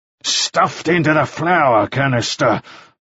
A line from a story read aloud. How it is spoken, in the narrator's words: Mannering snarled